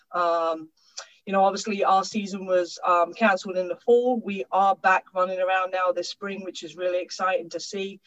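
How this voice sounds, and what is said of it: English accent. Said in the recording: “As you can probably hear, you've always been the token coach with the funny accent. ... moved over from England”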